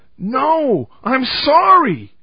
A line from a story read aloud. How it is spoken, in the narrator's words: Jerry cried out